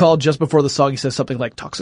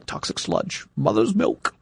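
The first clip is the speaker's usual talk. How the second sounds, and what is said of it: Imitates a cartoon villain's voice. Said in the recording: “That was a really good impersonation. ... Of what was the character's name? ... Hexus.”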